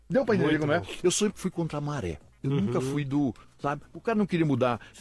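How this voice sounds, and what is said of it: Brazilian Northeastern accent. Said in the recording (Portuguese): “Você tem que perder esse sotaque nordestino”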